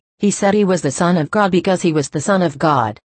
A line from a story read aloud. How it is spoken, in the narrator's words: said firmly